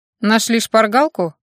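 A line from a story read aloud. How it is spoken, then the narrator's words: Snorting, mage. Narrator (Russian): хмыкнул маг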